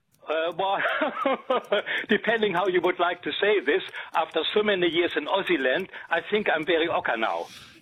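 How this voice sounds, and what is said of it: German accent in English. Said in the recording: “you're German, by the way, aren't you? ... I just know the accent.”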